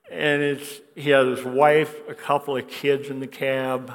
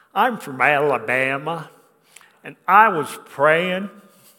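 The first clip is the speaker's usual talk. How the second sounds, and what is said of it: Strong Southern accent. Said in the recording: “he said in a strong accent”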